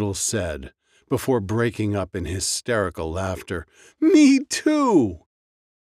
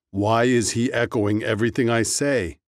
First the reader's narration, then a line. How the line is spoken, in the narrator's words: Doodle giggled